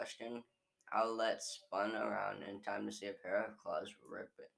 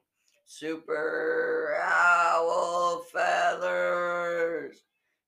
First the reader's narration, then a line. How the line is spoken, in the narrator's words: She screamed so loud that Gecko and Romeo had to cover their ears